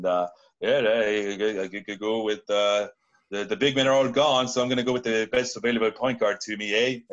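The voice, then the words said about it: Put-on French-Canadian accent. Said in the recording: “I'm using my Canadian, French-Canadian accent”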